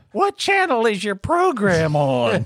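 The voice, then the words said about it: Old lady voice. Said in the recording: “I did an old lady voice for my mother”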